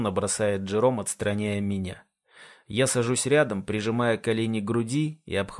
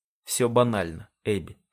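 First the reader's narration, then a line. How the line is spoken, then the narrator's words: Flat expressionless tone. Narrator (Russian): произносит он невыразительным тоном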